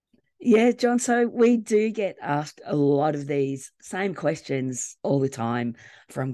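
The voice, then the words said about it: Croaky, hoarse voice. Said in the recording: “my voice is still croaky ... we're both feeling a little bit under the weather ... bear with our voices”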